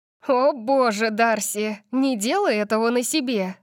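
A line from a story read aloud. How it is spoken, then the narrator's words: Laughing. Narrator (Russian): засмеялась она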